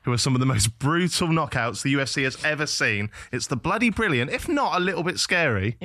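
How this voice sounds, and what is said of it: Posh southern English accent. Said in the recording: “the most southern introduction to a podcast I've ever, ever heard in my life ... proper Queen's English ... so posh”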